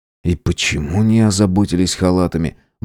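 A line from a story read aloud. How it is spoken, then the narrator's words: Muttered under breath. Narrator (Russian): Буркнул себе под нос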